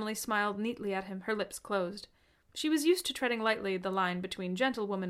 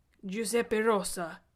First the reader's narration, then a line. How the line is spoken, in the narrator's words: told her gruffly, as though afraid to raise his voice any louder than a bare murmur